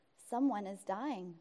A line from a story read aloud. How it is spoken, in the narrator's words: murmured the little girl